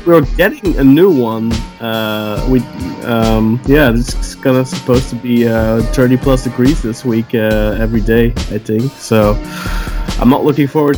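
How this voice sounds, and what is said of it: Slight Scottish accent. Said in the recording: “I just sound a little Scottish now.”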